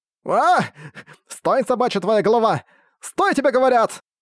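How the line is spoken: Shouting. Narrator (Russian): Кричал

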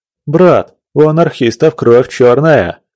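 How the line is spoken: Mocking laugh, young man. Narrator (Russian): Издевательски засмеялся молодой усач справа

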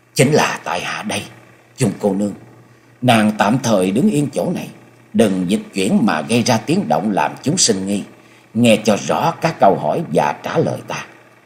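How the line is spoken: Low, restrained voice. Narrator (Vietnamese): Cố gắng đè nén cảm xúc ở trong lòng, Nhậm Sương Bạch hạ giọng nói

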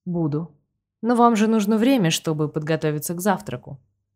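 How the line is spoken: Even tone. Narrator (Russian): ровным тоном сообщили мне

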